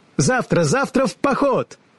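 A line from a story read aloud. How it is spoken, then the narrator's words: Cheerful shout. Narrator (Russian): весело закричала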